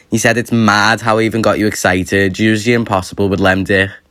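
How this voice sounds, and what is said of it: Liverpool accent. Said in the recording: “I am a number one fan of the Liverpool accent... is it not so cute?”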